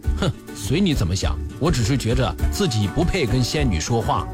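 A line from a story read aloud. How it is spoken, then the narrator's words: Flat, indifferent. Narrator (Chinese): 老王淡淡地说了一句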